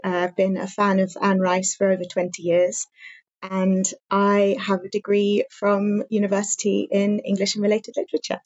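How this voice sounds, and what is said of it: English accent. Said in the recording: “I live in England, as you can probably tell from my accent.”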